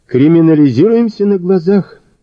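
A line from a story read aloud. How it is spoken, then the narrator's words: Sighing. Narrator (Russian): вздохнула Ольга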